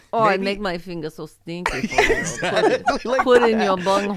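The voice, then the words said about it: Put-on Russian accent. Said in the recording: “in your Russian accent”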